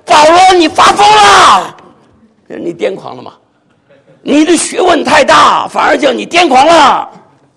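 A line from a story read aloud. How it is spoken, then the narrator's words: Loud. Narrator (Chinese): 菲斯都大声说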